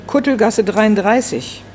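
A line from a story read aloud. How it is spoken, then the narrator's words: Calling out. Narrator (German): Herr Niedermeyer rief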